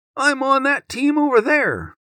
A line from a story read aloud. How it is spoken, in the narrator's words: cries